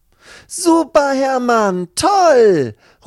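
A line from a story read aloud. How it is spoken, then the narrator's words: Delighted call. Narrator (German): ruft seine Freundin Lucy, die gerade um die Ecke kommt und sich sehr über diesen Anblick freut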